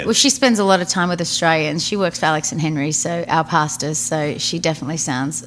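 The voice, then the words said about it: Australian accent. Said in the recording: “you're Australian ... I try and keep my accent even though I live in Nashville”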